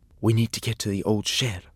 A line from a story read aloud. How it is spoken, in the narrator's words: whispered Tom